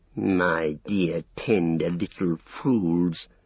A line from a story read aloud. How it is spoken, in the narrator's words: hissed Grishnak